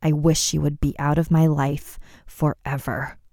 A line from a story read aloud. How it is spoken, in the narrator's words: Layla muttered under her breath